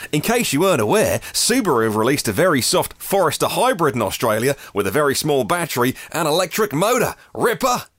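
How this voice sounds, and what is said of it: Mediocre put-on Australian accent. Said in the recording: “please break out your very average Aussie accent ... I'll stop the accent now”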